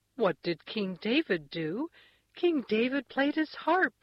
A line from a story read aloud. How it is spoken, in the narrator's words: answered gaily, and it sounded like the beginning of a song